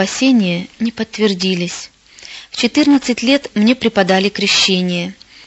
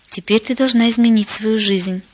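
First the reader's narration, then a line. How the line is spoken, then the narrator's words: Calm mother. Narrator (Russian): На удивление мама спокойно сказала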